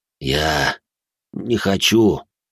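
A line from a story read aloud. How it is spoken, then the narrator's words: Sighed. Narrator (Russian): вздохнул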